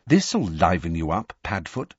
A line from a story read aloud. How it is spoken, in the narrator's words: said James quietly